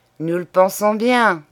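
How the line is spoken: Plain. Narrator (French): dit Gévrol

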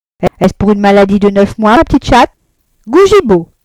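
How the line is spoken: Exclaiming. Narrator (French): s'écria le capitaine

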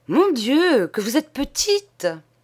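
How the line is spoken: Astonished exclamation. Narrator (French): elle s'écria d'une voix étonnée

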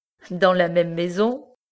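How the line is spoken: Laughing question. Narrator (French): demanda Prudence en riant

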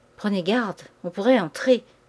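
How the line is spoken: Murmured. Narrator (French): Il murmura

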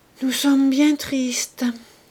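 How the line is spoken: Sighing. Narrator (French): soupirait Madame Charbonnel

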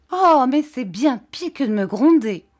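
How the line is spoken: Desperate cry. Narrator (French): s'écria Dora au désespoir

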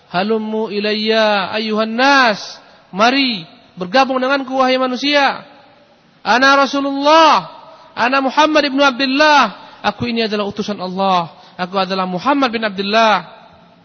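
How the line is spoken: Shouting to the people. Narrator (Indonesian): dia berteriak kepada manusia

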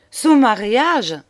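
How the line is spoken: Exclaimed, bursting out laughing. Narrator (French): s'écria Juliette en éclatant de rire

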